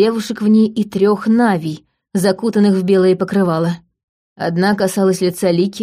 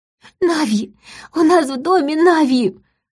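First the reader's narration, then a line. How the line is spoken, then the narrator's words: Sobbing. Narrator (Russian): рыдала Полина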